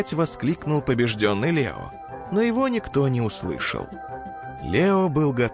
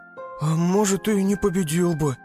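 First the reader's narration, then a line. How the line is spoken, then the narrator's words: Sad sigh. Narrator (Russian): грустно вздохнул Тик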